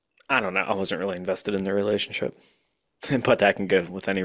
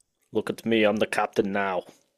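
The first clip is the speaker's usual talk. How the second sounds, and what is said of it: Put-on Eastern European accent. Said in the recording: “I gave a Somali pirate an Eastern European accent, but we'll work on it.”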